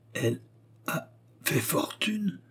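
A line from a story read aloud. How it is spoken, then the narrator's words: Astonished murmur. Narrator (French): murmura-t-il avec stupeur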